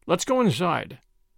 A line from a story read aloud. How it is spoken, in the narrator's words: said Major Putnam, rather sharply